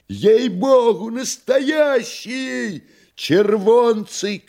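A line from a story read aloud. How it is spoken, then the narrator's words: Joyful shouts from gallery. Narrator (Russian): кричали с галерки радостно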